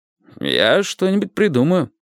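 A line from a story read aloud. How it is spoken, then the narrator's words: Calm. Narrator (Russian): сказал Сони спокойно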